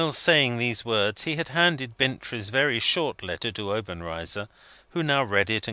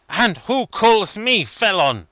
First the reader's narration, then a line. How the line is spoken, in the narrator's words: said Obenreizer fiercely